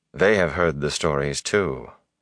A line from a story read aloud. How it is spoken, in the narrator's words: she added dryly